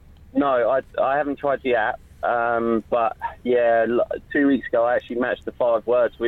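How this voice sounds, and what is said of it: Usual voice. Nothing is said of it.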